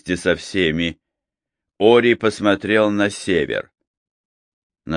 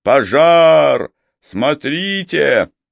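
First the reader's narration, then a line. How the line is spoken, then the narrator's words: Roaring shout. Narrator (Russian): кто-то проревел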